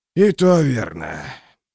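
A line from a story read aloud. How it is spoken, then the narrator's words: Weary sigh. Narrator (Russian): Клевер устало вздохнул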